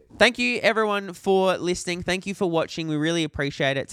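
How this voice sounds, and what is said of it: Polished radio host voice. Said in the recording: “I can't do your fucking radio voice. ... Do I go into a radio voice when I do it?”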